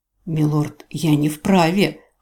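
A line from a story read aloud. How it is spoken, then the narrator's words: Hoarse wheeze. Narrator (Russian): хрипел тот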